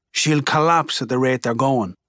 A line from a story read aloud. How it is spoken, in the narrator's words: mutters